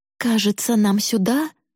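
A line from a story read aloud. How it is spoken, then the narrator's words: Plain. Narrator (Russian): сказала мама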